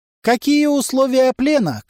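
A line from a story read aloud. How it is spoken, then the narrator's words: Distant shout. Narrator (Russian): крикнула из оврага Касси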